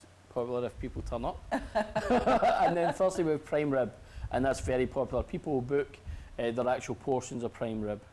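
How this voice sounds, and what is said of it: Strong Glasgow Scottish accent. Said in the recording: “I'm sensing an accent... I'm from Scotland, in case anybody's having problems understanding what I'm saying... I'm from Glasgow, Govan... I've still got a very strong accent”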